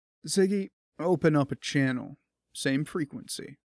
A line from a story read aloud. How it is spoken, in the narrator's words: Ken said in a soft but firm voice